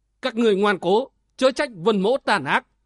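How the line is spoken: Angry shout. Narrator (Vietnamese): Vân Giật Long tức giận quát

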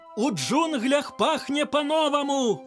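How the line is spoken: Cried out. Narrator (Belarusian): крыкнул паўлін мор

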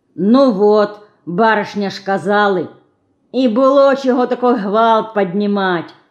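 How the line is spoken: Crowd grumbling reluctantly. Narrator (Russian): нехотя расходясь, ворчала толпа

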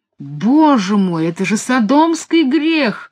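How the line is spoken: Exclaimed. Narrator (Russian): воскликнул отец Диллиген

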